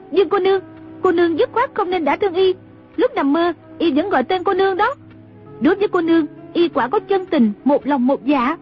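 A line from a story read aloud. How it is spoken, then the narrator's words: Cry out. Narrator (Vietnamese): Trung Linh la lên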